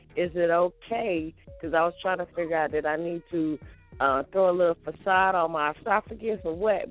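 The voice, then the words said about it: Raspy, hoarse voice. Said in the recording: “You said I'm a little raspy ... I sound a little extra raspy today”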